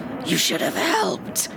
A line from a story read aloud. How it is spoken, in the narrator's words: his sister rasped strangely